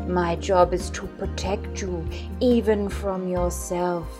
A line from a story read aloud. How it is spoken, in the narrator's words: Jared said in his deep voice